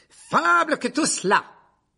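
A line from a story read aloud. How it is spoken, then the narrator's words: Roaring. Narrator (French): rugit le chevalier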